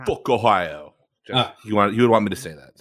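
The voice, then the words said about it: Imitates another person's voice. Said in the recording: “that was a perfect impression ... It was scary ... he was living in my ears”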